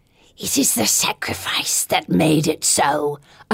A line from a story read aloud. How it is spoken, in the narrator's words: hisses